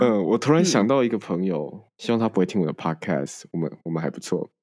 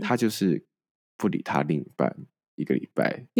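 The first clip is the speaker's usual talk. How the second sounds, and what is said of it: Suddenly speaking quietly. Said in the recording (Chinese): “你为什么要突然讲小声？我们八开始都是一样大声的。你讲小声”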